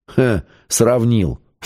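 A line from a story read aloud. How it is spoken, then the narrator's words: Snort. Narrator (Russian): фыркнул Семен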